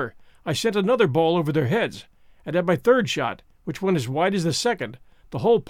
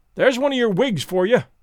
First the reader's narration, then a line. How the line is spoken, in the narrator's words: cried Alan